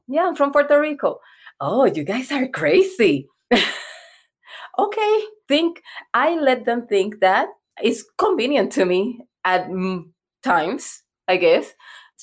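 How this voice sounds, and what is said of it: Puerto Rican accent. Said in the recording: “I'm Afro-Latina and I'm Puerto Rican ... I hear an accent”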